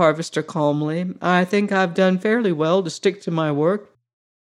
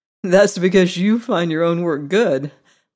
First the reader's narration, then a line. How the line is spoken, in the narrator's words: laughed the harvester